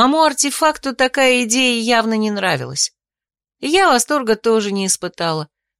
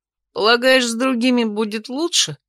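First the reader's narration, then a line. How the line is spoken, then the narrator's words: Snort, blond man. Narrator (Russian): хмыкнул невидимый блондин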